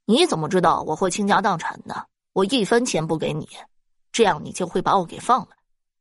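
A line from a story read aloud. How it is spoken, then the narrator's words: Cold laugh. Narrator (Chinese): 世元冷冷一笑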